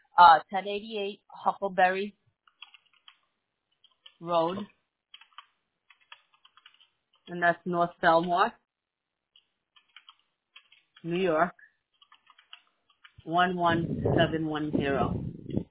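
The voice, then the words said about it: Breathless, slightly unwell voice. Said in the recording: “out of breath. I'm a little under the weather.”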